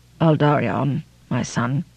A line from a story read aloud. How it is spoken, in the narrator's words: he said sadly